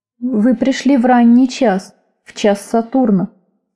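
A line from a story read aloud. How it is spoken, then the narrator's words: Slow deep low voice. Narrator (Russian): сказал он медленно, глубоким низким голосом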